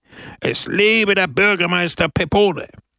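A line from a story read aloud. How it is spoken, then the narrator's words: Roaring crowd. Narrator (German): brüllte die Menge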